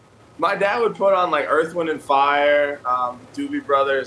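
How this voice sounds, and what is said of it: New York accent. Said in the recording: “I got a hint of your New York accent went absolutely nowhere”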